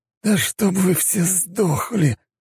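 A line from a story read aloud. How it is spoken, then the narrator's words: Hissed. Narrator (Russian): прошипел второгодник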